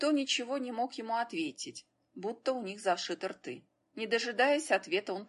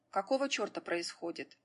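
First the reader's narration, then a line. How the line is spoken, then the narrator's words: Irritated voice. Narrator (Russian): он раздраженным голосом произнес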